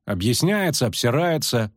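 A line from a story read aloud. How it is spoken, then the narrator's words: Snorting. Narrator (Russian): фыркнула Мильва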